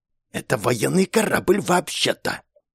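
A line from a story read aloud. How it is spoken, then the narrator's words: Almost hissing. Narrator (Russian): почти прошипела свежеиспеченная морячка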